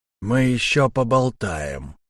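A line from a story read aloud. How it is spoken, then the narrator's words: Through gritted teeth. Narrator (Russian): процедил штурмовик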